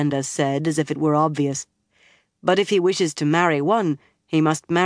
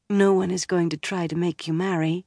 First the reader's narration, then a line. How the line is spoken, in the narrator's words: Egwene said soothingly